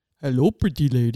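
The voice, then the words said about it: Andre the Giant impression. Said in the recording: “It's Paul Rudd imitating the other guy, Andre the Giant.”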